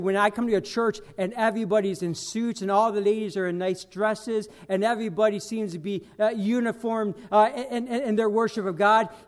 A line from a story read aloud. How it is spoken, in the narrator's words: he said